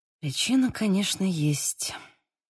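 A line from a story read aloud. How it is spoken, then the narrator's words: Mumbled. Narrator (Russian): пробормотала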